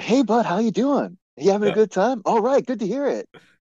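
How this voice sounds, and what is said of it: Exaggerated, insincere friendly voice. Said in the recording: “Your impression makes it sound so disingenuous”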